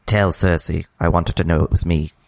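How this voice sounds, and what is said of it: Impression of Olenna Tyrell's voice. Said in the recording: “your impression of Olenna Tyrell's last words”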